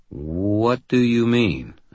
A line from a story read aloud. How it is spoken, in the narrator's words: I said slowly